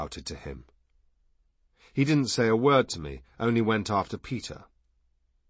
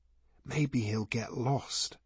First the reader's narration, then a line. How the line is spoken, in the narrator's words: he whispered hopefully